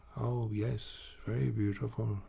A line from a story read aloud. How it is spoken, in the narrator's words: Rodolphe repeated in a low voice and with a tender look